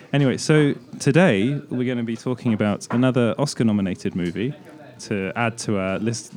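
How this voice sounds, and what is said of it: Sick-sounding voice. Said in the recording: “my voice sounds a bit ill. Yeah, I am ill.”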